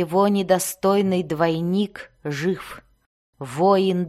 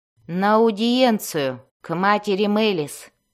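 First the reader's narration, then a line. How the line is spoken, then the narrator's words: Gloomy. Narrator (Russian): мрачно сказала она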